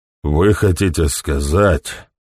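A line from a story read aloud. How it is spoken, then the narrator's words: Thoughtful. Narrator (Russian): задумчиво изрек Гэм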